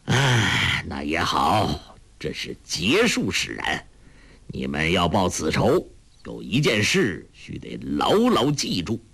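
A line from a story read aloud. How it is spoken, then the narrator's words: Sighing. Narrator (Chinese): 裘千仞叹了口气说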